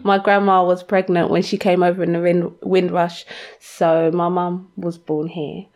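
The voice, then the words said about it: London accent. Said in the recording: “you're a Londoner and I hear your accent”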